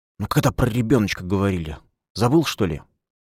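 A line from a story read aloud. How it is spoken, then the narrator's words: Hissed. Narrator (Russian): Дилька удивленно прошипела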